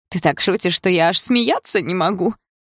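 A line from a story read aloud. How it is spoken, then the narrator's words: Snorting, princess. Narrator (Russian): фыркнула принцесса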